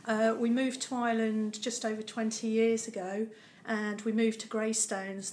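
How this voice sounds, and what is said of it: Non-Dublin accent. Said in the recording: “as you can tell by the accent, it's not a Dublin accent.”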